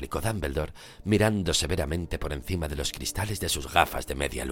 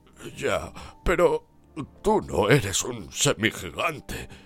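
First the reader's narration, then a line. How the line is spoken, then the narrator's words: Hoarse voice. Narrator (Spanish): contestó Hagrid con voz ronca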